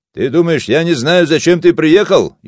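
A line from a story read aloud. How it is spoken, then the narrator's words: Even louder shouting. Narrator (Russian): еще громче закричал Васо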